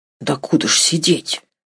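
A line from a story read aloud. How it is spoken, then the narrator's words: Whispered question. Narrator (Russian): так же шепотом спросил Сережа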